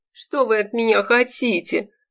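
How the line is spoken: Whined. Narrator (Russian): проскулил Яновский

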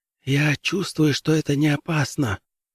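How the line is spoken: Whispered. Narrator (Russian): также шепотом ответил Дин

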